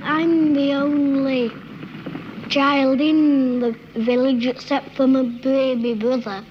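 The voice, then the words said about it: Rural Yorkshire child's accent. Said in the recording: “how different their accents were just from different parts of England ... the first and third are ... in Yorkshire, a very rural child”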